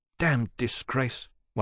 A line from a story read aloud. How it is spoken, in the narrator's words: one of the young men in the corner muttered